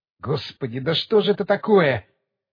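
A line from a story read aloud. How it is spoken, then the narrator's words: Muttering. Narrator (Russian): пробормотал он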